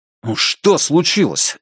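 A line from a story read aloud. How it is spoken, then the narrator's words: Unintentionally sharp. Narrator (Russian): сказал Страйк гораздо более резко, чем собирался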